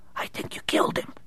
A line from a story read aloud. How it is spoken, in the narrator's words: Raymond's henchman whispered